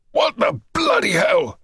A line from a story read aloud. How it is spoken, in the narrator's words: he roared